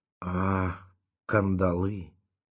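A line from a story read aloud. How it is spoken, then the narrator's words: Muffled, pained. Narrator (Russian): глухо сказала она и опять скривилась от боли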